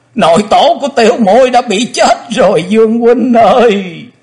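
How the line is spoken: Wretched crying wail. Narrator (Vietnamese): Quỳnh Dao đang khóc, nàng thê thảm gào to

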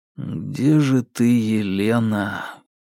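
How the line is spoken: Inner sigh. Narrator (Russian): в мыслях вздохнул Марк

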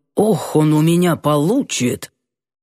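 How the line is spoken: Sudden angry tone. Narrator (Russian): неожиданно сердито свел брови в кучу и добавил

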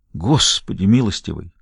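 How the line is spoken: Breathless exclamation. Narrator (Russian): выдохнул Хэнкок

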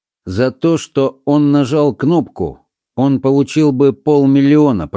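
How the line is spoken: Even, level voice. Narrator (Russian): продолжал низкорослый священник тем ровным голосом, которым он всегда говорил о страшных вещах

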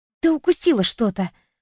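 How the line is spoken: Hissed. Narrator (Russian): прошипела я

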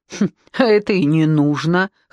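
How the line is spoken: Snorting. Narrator (Russian): хмыкнул Криворучка

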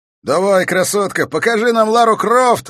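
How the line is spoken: Shouted. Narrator (Russian): выкрикнул он

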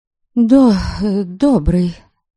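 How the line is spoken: Slightly stammering. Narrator (Russian): Слегка запинаясь, проговорила я

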